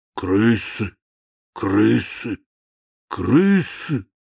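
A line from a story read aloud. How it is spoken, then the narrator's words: Whisper. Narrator (Russian): Он начал шептать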